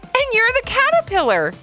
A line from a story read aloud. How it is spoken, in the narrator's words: exclaimed Jolie back at Ivy